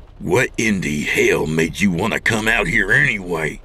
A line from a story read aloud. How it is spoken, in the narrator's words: Don growled